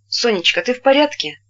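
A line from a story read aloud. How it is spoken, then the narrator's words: Gentle, affectionate question. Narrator (Russian): спросил ласково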